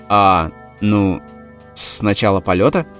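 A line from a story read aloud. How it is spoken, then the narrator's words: Slightly uncertain reply. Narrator (Russian): ответил немного неуверенно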